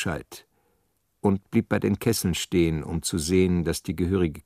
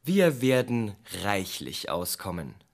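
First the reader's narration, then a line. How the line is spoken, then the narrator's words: Plain. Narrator (German): sagte ich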